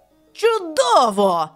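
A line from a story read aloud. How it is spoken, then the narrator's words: Joyful. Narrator (Ukrainian): зрадів МакАрдл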